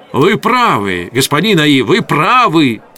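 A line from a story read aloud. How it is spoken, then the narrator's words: Passionate exclamation. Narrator (Russian): страстно воскликнул Слос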